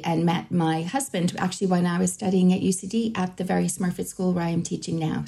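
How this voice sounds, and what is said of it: Boston American accent. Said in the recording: “we can hear your accent is originally from, I believe, Boston”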